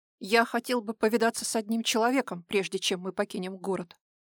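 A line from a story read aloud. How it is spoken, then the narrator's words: Sharp declaration. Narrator (Russian): резко заявил Даил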